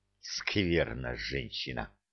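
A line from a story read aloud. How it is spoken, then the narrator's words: Grumbling through teeth. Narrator (Russian): Сквозь зубы проворчал генерал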